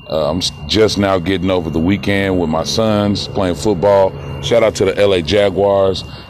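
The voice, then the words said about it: Slightly dry voice. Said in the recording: “my voice is a little dry”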